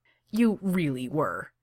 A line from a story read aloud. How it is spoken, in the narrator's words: says Kaner firmly